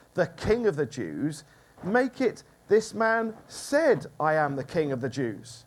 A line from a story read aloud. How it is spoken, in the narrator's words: Pilate said